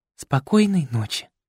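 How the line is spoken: Breathy seductive whisper. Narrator (Russian): выдохнула ему в ухо таким шепотом

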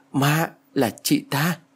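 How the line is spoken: Stammering. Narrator (Vietnamese): Tôi lắp bắp ... nói

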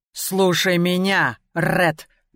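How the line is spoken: Growling. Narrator (Russian): прорычала я

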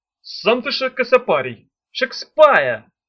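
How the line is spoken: Snapping retort. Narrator (Russian): огрызнулся Чемоданов

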